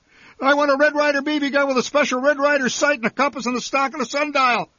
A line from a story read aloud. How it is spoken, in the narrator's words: I shouted